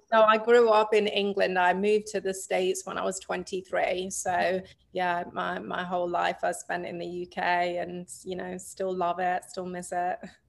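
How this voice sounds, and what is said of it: English accent. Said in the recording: “Is that how you have an accent? ... Sure is.”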